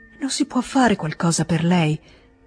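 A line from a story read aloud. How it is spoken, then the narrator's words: Emotional whisper. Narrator (Italian): disse la Karenina con un bisbiglio emozionato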